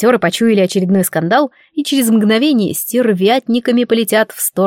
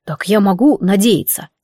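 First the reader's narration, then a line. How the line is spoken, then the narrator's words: Quiet question. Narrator (Russian): тихонько спросил Адамс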